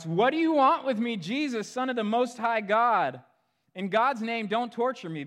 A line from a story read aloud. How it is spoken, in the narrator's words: he shouts